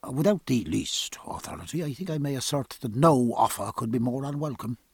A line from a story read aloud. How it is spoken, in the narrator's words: Stephen lowered his voice respectfully and went on